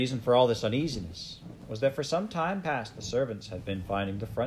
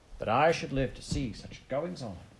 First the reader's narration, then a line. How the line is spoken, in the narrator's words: The old cook muttering